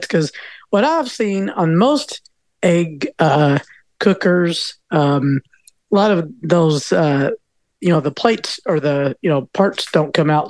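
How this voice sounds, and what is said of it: Slight Southern US accent. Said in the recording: “I did detect a little Southern in your accent”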